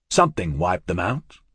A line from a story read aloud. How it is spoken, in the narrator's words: the quaestor said